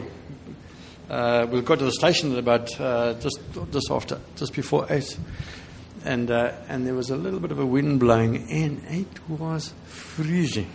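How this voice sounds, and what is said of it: South African English accent. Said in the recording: “do you understand my accent?... we're from, as you know, from South Africa.”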